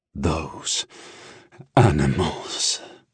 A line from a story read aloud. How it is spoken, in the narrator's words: the Dragon Lord rasped